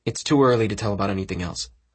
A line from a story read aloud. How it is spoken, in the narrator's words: I said